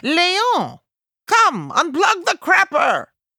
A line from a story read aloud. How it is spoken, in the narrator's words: he yells for the concierge's husband